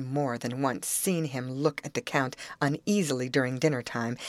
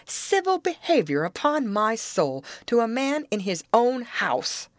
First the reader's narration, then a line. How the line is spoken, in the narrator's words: said Percival savagely